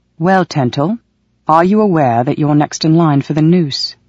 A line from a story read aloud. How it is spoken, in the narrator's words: Valak asked